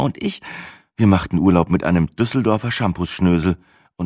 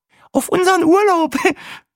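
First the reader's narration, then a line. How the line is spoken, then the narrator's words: Laughing. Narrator (German): lachte Brenda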